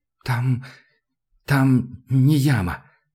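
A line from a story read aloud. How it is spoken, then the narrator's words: Strained, forced out. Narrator (Russian): наконец через силу выдавил он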